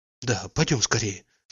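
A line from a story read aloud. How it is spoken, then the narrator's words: Rapid whisper. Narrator (Russian): сказала шепотом с скороговоркой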